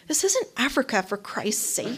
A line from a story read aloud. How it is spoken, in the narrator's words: he said, his voice at a whisper